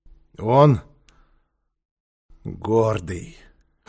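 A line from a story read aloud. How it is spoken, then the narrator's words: Hoarse repetition. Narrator (Russian): хрипло повторил Квакин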